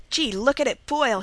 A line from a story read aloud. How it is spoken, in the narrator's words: he cried